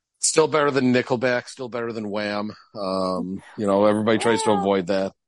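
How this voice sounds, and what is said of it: Fading, worn-out voice. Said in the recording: “You can probably hear it. My voice is fading.”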